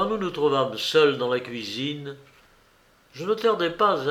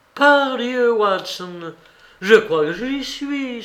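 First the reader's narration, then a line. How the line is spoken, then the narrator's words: Exclaiming. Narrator (French): s'écria-t-il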